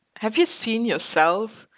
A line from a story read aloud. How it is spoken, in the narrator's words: Clint chuckled